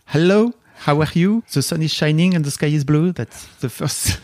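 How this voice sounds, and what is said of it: English with a French accent. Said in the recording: “my French accent”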